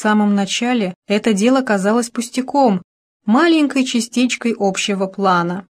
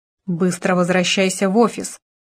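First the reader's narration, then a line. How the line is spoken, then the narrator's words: Growled. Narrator (Russian): прорычал Таннер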